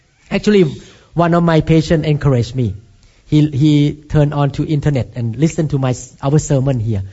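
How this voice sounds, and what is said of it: Thai-accented English. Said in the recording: “he put you to be born in Thailand ... you have to speak accent in America ... your accent is not too bad. It's good. It's fun.”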